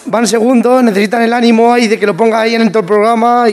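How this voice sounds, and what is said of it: Strong Manchego Spanish accent. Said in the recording (Spanish): “El acento de Membrilla está guapo ... acento manchego fuerte, el mejor que hay.”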